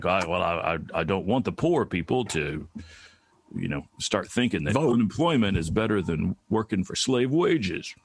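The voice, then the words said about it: Imitates another person's voice. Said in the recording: “that's a really good impression of him, actually. That was pretty good. ... A little more Southern accent, and you got it.”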